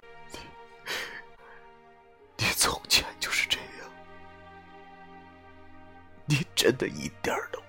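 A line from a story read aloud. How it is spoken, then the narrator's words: Hoarse. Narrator (Chinese): 我用沙哑的声音说道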